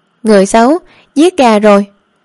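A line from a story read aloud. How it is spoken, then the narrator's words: Animal cry, growing louder. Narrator (Vietnamese): Con gà kêu lên càng ngày càng to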